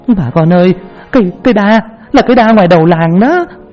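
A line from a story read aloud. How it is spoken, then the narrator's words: Ringing shout. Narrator (Vietnamese): có tiếng ai đó hét vang lên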